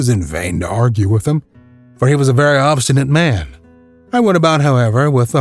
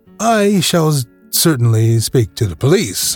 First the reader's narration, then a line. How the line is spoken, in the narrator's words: I said